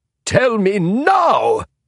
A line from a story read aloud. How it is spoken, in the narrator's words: he bellowed